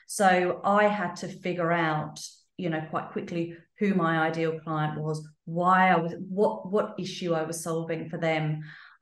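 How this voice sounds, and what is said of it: Slight English accent. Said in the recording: “the still slightly English accent”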